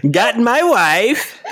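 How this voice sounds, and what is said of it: Borat impression. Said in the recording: “doing a Borat impression”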